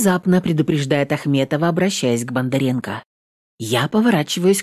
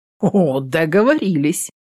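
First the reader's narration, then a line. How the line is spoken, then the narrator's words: Short laugh. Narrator (Russian): Коротко хохотнув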